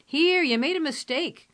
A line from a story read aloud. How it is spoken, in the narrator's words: cried Bert